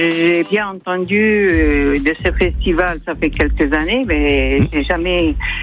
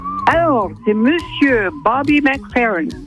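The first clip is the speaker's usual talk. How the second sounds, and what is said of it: Impressive English accent on name. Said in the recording (French): “avec l'accent! Oh, yes! ... Mais quel accent, c'est impressionnant!”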